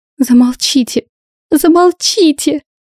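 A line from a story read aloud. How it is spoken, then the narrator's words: Shouting. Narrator (Russian): закричала она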